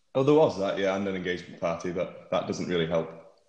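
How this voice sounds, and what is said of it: Slightly hoarse voice. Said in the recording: “my voice sounds a bit hoarse, ... my voice box hasn't warmed up”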